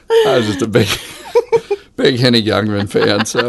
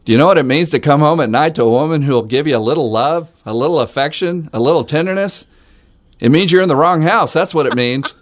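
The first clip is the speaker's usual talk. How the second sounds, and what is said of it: Deliberately poor old comedian impression. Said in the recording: “This is the episode for all of our awful impersonations. We are really bad.”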